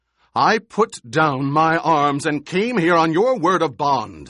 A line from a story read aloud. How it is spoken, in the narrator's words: the Emperor shouted